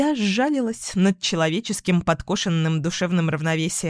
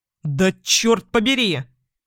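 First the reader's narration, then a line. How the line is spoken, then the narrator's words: Barked. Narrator (Russian): рявкнул Иван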